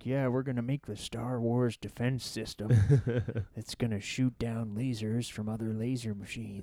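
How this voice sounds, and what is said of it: Imitates another person's voice. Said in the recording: “This is your best impression.”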